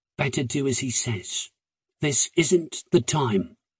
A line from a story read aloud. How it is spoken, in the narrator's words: Will said quietly